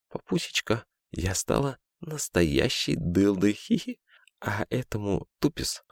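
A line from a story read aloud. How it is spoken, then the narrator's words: Eager whisper in ear. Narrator (Russian): Юлька зашептала горячо в ухо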